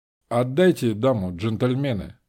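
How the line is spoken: Calm. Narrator (Russian): сказал я спокойно

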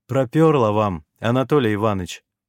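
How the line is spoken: Smirking. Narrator (Russian): хмыкнул я

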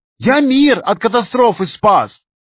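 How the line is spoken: Shout. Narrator (Russian): выкрикнул программист

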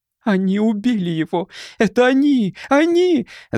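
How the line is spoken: Screaming. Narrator (Russian): закричала Дели

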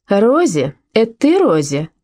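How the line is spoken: Old lady calling out. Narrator (Russian): Старая дама крикнула

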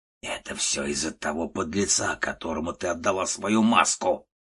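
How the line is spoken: Spiteful gnome. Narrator (Russian): злобно сказал малиновый гном

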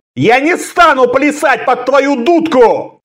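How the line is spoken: Shouted in helpless fury. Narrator (Russian): крикнул он в бессильной ярости

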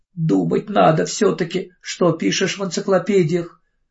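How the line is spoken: Sobbing. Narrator (Russian): всхлипывала она

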